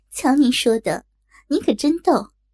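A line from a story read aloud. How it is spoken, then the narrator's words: Flirtatious laughing. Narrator (Chinese): 我浪笑道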